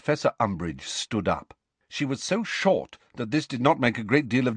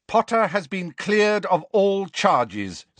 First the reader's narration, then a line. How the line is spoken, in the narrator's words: said McGonagall even more loudly